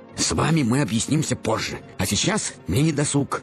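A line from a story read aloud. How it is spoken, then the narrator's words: Sharp, curt. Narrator (Russian): резко бросил коротышка-миллионер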